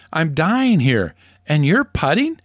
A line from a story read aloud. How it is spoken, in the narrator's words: gasps